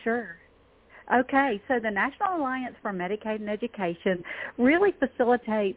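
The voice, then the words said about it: Southern US accent. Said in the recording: “I'm from Georgia... I figured you weren't from Vermont. I just picked up your accent there.”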